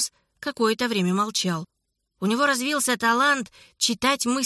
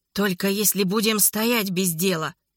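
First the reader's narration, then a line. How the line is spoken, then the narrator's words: Angry hiss. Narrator (Russian): со злостью прошипел Леметр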